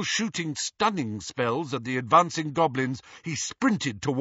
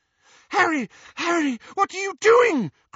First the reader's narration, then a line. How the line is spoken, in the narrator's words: cried Hermione